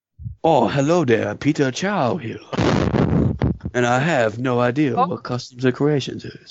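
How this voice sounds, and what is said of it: Put-on Chinese accent. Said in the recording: “Speak with a Chinese accent.”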